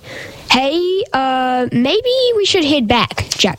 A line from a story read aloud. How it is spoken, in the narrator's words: shouted Jackson with fear in his eyes